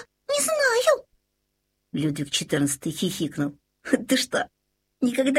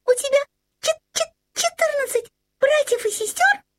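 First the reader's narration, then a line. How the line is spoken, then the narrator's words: Squeaky little voice. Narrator (Russian): пропищал комочек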